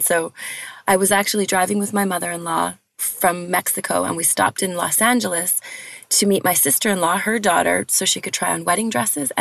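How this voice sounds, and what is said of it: Strained, hoarse, fading voice. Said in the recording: “I'm losing my voice because I was talking a blue streak for like the last 5 days”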